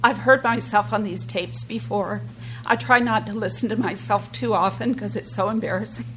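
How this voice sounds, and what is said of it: Nervous-sounding voice. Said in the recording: “my voice is like this because all my, you know, I'm nervous”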